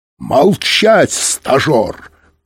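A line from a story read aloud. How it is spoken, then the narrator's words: Roar. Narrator (Russian): проревел Быков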